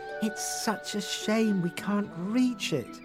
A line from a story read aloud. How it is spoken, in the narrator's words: sighed Rose